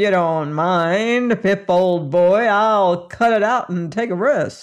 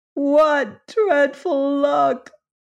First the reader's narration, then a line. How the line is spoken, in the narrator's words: He wailed despondently